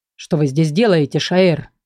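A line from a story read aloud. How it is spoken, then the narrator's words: Menacing question. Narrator (Russian): грозно спросил Верден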